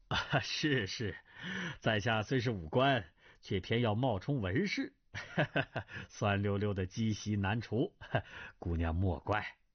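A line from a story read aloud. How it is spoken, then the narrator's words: Apologetic smile. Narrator (Chinese): 朱丹臣陪笑道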